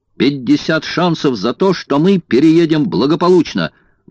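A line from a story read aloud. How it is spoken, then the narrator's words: Exclaimed, passenger. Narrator (Russian): воскликнул один из пассажиров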